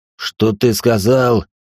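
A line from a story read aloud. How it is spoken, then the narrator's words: Roared. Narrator (Russian): взревел Холин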